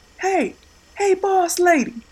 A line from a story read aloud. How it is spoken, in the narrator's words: He yelled over the noise of the loud street